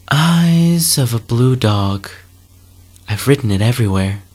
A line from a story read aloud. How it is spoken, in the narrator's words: sighing